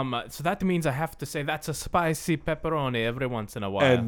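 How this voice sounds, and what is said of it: Usual voice. Nothing is said of it.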